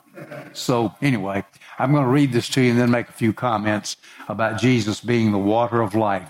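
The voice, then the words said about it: Southern American accent. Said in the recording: “I can't help my accent ... they had never heard Southern fried gospel before”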